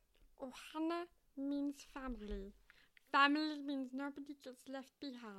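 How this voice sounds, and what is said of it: Cartoon alien character voice. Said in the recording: “I have a pretty good Stitch impression... It's a decent one... The sound is weird.”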